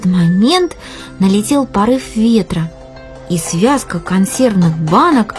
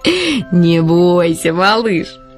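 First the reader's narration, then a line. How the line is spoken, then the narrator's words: Laughing crow. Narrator (Russian): засмеялась ворона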